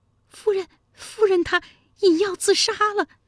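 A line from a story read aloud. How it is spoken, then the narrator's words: Trembling maid. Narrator (Chinese): 一名婢女奔过来颤声说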